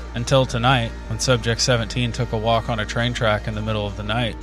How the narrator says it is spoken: Lyndon sighed

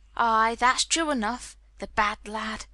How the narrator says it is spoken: sighed Martha

